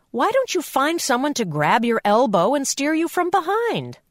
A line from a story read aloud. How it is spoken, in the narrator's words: Mom said impatiently